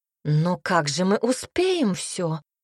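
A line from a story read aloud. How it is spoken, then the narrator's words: Exclaimed. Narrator (Russian): воскликнула тетя Агаста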